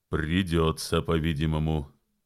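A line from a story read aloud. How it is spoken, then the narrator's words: Grim chuckle. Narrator (Russian): мрачно усмехнулся Джон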